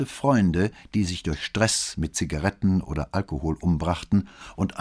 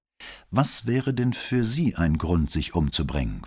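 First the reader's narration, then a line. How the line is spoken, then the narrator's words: Plain question. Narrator (German): fragte Brunetti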